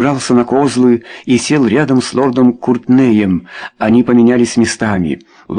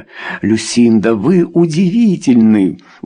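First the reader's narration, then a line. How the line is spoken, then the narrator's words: Exclaimed. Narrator (Russian): воскликнул Чарльз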